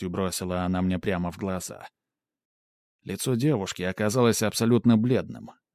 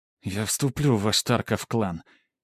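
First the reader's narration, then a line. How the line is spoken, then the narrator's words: Through gritted teeth. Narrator (Russian): чуть ли не цедя слова сквозь зубы, произнесла она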